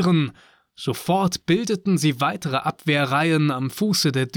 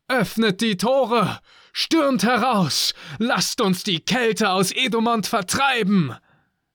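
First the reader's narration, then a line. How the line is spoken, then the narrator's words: Called out. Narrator (German): rief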